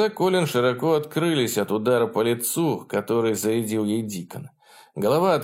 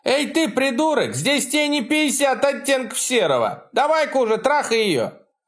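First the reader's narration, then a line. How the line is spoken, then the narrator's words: Loud shout. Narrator (Russian): Эхо громко крикнуло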